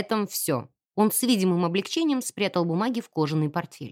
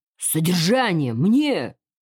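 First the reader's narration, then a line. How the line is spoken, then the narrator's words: Open loud laughter. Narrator (Russian): Родрик Хьюз, не скрываясь, хохотал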